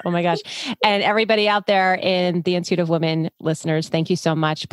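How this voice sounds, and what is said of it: New York accent. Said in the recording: “she's from New York. I'm like, you got to love the accent.”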